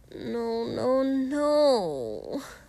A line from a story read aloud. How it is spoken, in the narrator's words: Denki whined at him